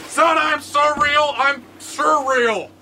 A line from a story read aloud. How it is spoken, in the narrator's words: He shouts back